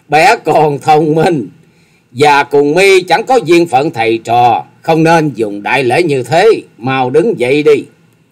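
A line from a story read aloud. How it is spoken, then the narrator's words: Loud laughing old woman. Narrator (Vietnamese): Thất Sát Thần Bà dục cười to lên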